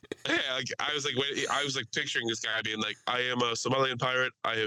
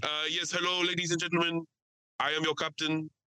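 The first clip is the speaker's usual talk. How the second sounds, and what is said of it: Thick South African accent. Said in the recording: “His accent was like an extremely thick South African accent.”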